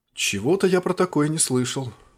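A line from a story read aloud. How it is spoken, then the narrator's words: Surprised but calm. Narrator (Russian): удивленно, но спокойно сказал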